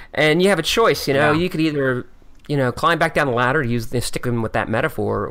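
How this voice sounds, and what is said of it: Philadelphia accent. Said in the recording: “I love your accent.... Philadelphia.”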